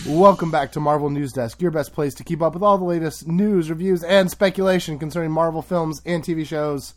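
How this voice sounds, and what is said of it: Lower, sick-sounding voice. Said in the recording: “I'm not feeling the best, so does my voice sound very, like, not good? ... do you like it when my voice is lower when I'm sick like this?”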